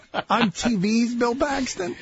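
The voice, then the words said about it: Bill Paxton impression. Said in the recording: “a Bill Paxton impersonation”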